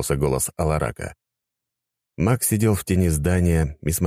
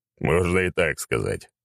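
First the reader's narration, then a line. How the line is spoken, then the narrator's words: Snorting chuckle. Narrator (Russian): хмыкнул Аршавин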